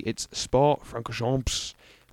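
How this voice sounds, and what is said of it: Very aggressive put-on French accent. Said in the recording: “in a very aggressive French accent.”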